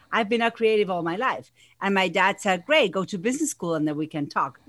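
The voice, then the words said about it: Argentine accent. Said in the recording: “if you hear an accent, it's because I have one. I'm originally from Argentina.”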